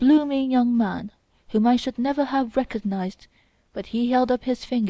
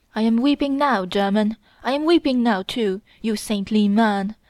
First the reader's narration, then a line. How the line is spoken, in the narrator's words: Mitya cried suddenly